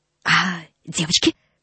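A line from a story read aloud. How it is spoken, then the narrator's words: Whisper. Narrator (Russian): шепнул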